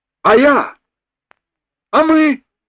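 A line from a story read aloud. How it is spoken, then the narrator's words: Shouted out. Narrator (Russian): выкрикнул Кок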